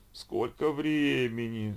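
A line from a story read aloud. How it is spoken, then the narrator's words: Sleepy yawning female voice. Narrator (Russian): снова зевнул спальный мешок сонным женским голоском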